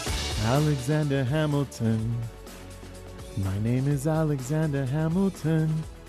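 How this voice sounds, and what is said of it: Imitates another person's voice. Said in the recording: “my attempt to impersonate Lin-Manuel Miranda”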